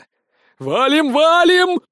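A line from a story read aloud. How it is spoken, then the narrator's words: Panicked shout. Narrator (Russian): панически закричал Сисюля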